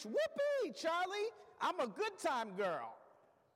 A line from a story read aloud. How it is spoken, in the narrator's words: Polly screeched